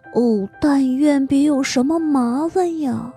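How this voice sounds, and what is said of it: Quiet muttering. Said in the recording (Chinese): “小声嘟囔说”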